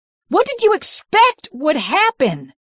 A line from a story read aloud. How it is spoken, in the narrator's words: I screamed, needing to have my voice heard for the first time